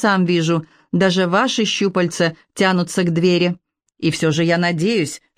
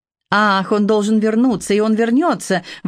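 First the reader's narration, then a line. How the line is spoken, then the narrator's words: Exclamation. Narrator (Russian): воскликнул сэр Джон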